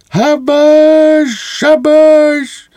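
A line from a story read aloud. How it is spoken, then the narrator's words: Cadet shrieking. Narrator (Ukrainian): кадет верещить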